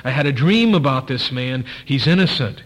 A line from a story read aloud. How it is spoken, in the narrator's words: his wife coming in and pleading with him